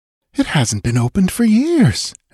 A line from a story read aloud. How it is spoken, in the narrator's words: exclaimed Valeria